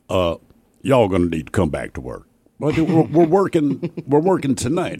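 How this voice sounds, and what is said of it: Slight put-on Southern accent. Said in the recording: “bit of a southern accent.”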